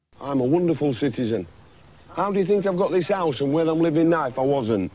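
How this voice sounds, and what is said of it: Distinctive regional accent. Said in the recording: “wait for this accent. Beautiful accent by a beautiful man”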